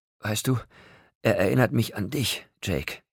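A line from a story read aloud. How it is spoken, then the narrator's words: Tender, still panting. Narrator (German): sagte sie, zärtlich, immer noch keuchend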